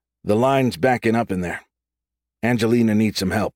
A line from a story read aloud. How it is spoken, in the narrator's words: Hilo said, trying to keep his tone neutral